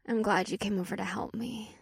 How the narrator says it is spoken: Leah purred

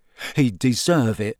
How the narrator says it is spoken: Cedric muttered

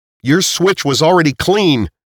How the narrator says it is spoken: Nate yelled

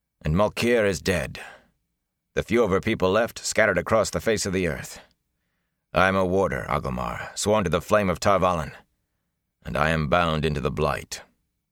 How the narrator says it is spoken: Lan said harshly

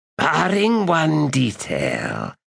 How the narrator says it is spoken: Shadow Throne said in a rasp

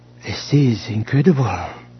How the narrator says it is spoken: she murmured

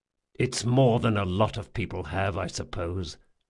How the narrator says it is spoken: muttered Jean

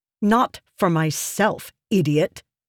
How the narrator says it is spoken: she snapped

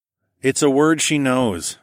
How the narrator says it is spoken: I sighed

